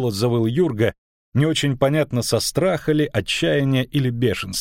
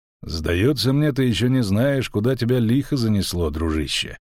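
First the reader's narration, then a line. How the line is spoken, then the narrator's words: Calm stranger. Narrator (Russian): спокойно проговорил незнакомец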